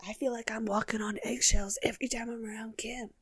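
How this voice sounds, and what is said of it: Good impression of Bree. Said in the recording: “what a good Bree impression”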